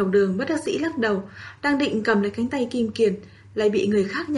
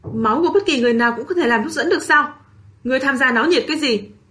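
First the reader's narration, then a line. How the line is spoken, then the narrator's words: Angry shout. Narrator (Vietnamese): Triển Chiêu giận dữ quát lên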